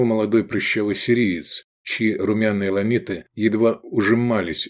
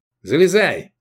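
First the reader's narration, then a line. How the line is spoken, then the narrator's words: Shout. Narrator (Russian): крикнул Прыщавый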